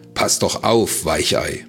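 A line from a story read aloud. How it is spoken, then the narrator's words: Mocking call. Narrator (German): rief er höhnisch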